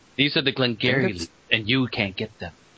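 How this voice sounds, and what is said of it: Imitates another person's voice. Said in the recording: “is going to try and win the argument through impersonation.”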